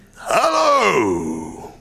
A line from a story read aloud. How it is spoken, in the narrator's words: growled Scrooge in his accustomed voice, as near as he could feign it